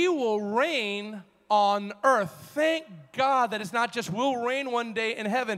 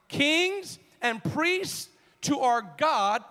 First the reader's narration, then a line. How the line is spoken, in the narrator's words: shout this with me